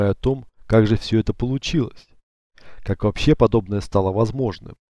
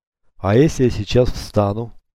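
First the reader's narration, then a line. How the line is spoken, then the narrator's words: Menacing question. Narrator (Russian): грозно спросил Алексей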